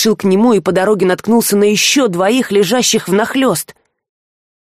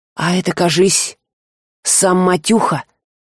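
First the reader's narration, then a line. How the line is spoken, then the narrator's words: Hoarse thief guessing. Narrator (Russian): хрипло предположил вор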